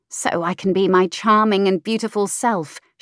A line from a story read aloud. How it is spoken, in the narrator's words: she muttered